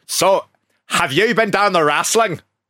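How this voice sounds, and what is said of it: Strong put-on Belfast accent. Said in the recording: “whether to do the accent ... That's strong, isn't it? That's too strong.”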